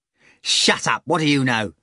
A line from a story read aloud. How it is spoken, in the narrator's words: snapped at Ruekin